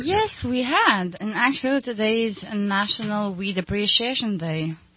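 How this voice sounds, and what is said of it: Ukrainian accent. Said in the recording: “people hear her accent, and they go, where's she from? Ukraine.”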